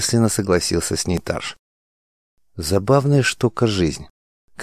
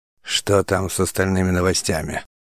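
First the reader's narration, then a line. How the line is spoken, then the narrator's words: Gloomy but calm question. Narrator (Russian): Угрюмо, но достаточно спокойно спросил Тарш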